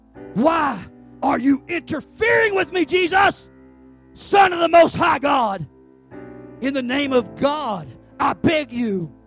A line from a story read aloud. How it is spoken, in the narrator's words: With a shriek, he screamed